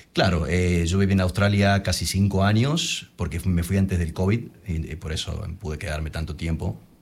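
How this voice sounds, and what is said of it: Good radio announcer voice. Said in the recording (Spanish): “Tienes muy, muy buena voz ... la voz para radio ... tengo voz de locutor”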